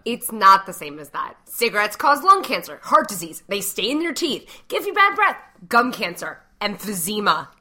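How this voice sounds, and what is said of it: Noticeable accent, frustrated tone. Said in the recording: “your accent comes out more when you're frustrated”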